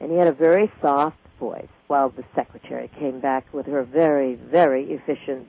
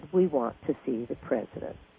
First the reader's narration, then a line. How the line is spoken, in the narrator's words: the gentleman very quietly said